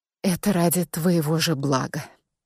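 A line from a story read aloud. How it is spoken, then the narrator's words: Quiet. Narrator (Russian): тихо проговорила я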